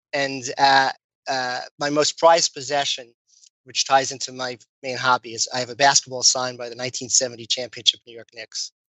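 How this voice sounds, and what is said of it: Brooklyn accent. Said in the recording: “As you may hear, as I speak, I have a Brooklyn accent that still comes out, especially when tired.”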